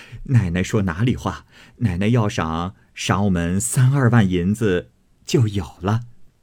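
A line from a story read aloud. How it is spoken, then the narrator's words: Laughing. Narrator (Chinese): 赖大家的笑道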